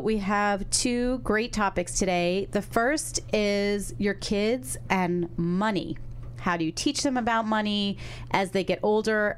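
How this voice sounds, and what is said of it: Sick, congested-sounding voice. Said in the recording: “I am sick. That's why I sound like this. ... why I sound weird.”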